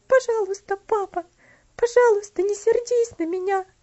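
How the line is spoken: Sobbing girl. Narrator (Russian): всхлипывала девочка

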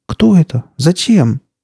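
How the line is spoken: Girl crying out. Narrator (Russian): вскрикнула девушка

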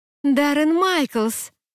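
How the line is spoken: Exclaiming. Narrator (Russian): воскликнула я

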